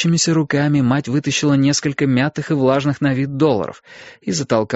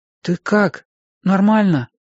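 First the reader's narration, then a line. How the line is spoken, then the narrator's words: Timid question. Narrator (Russian): робко спросил я ее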